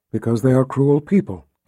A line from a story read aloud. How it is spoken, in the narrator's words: Kalen murmured